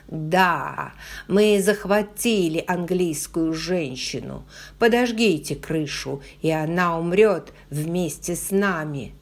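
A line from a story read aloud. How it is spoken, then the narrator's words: Yelling to distant soldiers. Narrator (Russian): обращаясь к английским солдатам на склоне холма, заорал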